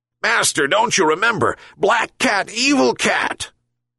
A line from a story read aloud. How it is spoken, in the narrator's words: yelped the dog even more angrily